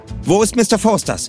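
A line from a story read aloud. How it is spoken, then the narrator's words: Sharp question, policewoman. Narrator (German): fragte die Polizistin scharf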